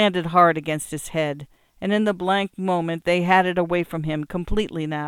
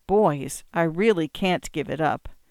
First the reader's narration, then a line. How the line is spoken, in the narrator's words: quietly, in a confidential tone